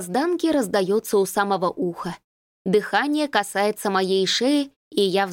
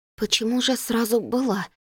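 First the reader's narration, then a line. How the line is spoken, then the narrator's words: Hoarse, broken question. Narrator (Russian): Спрашиваю я, но горло хрипит, выдает жалкие отрывистые звуки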